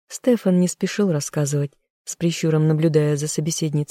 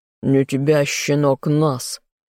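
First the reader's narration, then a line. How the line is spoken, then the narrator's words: Barked. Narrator (Russian): рявкнул Карлтон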